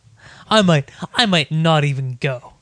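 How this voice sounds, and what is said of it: Imitates another person's voice. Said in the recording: “That's my new Matt impression.”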